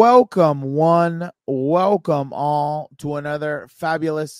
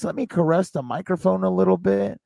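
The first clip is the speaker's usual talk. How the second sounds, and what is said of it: Smooth radio announcer voice. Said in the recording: “Let me try out my radio voice.”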